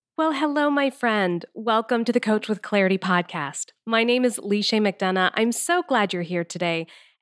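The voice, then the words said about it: Voice sounds a little different, unwell. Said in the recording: “my voice sounds a little different than usual ... I am just getting over COVID ... I'm still dealing with a bit of a cough”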